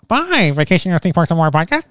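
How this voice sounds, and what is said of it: Imitates the E.T. alien voice. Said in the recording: “That's a terrible E.T. impersonation”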